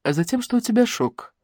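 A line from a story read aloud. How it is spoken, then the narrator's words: Calm. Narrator (Russian): спокойно сказала Лариса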